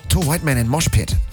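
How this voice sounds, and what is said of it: Put-on Japanese accent. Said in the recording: “Great accent. ... That's an accent. ... You're doing a Japanese accent.”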